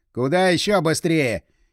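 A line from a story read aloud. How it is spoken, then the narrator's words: Puzzled grunt. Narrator (Russian): Игорь недоуменно хмыкнул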